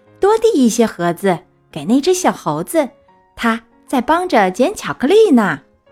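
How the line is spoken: Loud shout. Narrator (Chinese): 有人……高声喊起来

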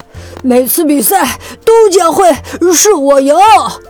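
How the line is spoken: Breathless, panting. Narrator (Chinese): 灰狐狸气喘吁吁地说

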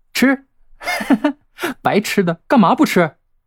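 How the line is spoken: Cheeky, eager. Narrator (Chinese): 吕乐嬉皮笑脸、摩拳擦掌的说道

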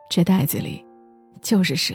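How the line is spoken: Soft, young boy. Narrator (Chinese): 拎蛇皮袋的男孩轻声对我说

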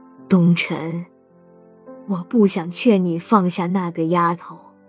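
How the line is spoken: Low sigh. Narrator (Chinese): 陈慧低叹道

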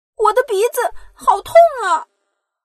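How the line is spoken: Little girl crying out. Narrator (Chinese): 小公主大叫起来

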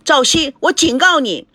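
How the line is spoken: Shouting into phone. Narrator (Chinese): 孙振贴着电话大叫着

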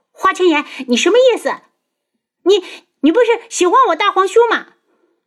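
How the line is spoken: Loud flustered shout. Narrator (Chinese): 东方颜月两涨得通红，对着大门口大叫

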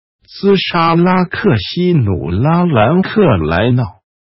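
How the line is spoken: Hissing, low chanting. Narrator (Chinese): 法师嘶声道，低声念着

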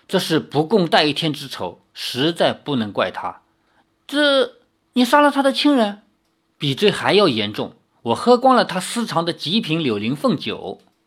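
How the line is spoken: Long heavy sigh. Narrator (Chinese): 九剑仙浩然长叹说

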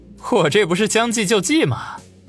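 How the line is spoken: Awkward embarrassed laugh. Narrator (Chinese): 王宇讪讪一笑，说道

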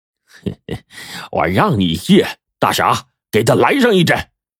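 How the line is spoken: Sinister snicker. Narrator (Chinese): 金大牙阴笑着说

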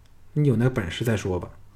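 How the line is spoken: Cold. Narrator (Chinese): 赵雅冷冷地说

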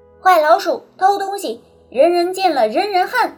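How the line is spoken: Accusing chorus. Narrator (Chinese): 螳螂、青蛙、 等劳动能手 都过来指责他

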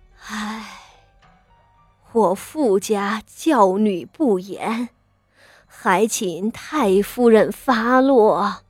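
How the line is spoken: Old woman's heavy sigh. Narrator (Chinese): 傅老夫人…心里长叹道

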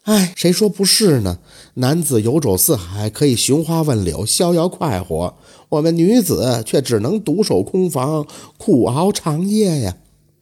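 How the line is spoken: With a long sigh. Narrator (Chinese): 穆玉娘长叹一声就说

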